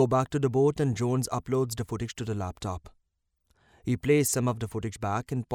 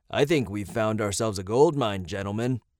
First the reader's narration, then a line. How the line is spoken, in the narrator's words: Scott says